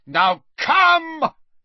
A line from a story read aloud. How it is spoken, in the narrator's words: he shouted at the huge Death Eater